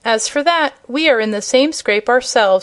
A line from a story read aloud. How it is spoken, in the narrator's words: answered Dorothy cheerfully